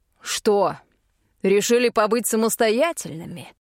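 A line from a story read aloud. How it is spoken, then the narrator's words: Menacing question. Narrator (Russian): грозно спросил он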